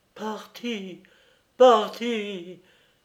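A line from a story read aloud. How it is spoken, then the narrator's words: Choking on sobs. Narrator (French): s'écria monsieur Minxit, suffoqué par les sanglots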